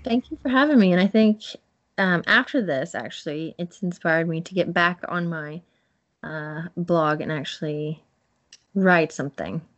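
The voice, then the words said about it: Noticeable non-local English accent. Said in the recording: “I love your accent, by the way. That's really cool. ... yours is, like, a little bit different”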